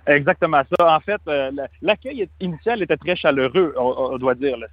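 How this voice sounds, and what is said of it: Canadian French accent. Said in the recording (French): “c'est mon accent qui m'a trahi exactement. Je viens de l'étranger. Quand j'expliquais que je venais du Canada”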